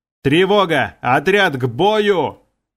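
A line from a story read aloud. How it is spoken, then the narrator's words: Yelled at top of lungs. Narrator (Russian): Заорал я во все горло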